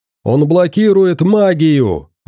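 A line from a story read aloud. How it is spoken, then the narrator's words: Yelled. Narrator (Russian): заорал Эрнесто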